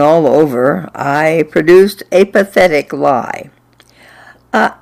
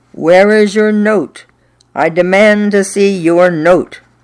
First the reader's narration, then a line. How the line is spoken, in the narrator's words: she roared